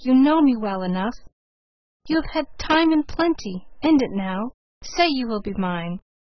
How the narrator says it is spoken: he pleaded

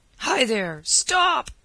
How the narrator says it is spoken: bawled Colonel Bishop after the fugitive

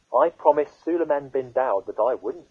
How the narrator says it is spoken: said the butterfly

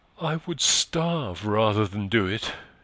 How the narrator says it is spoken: she exclaimed vehemently

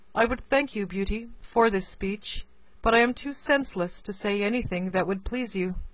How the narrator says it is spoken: returned the beast in a melancholy voice

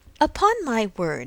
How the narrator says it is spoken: exclaimed Emma

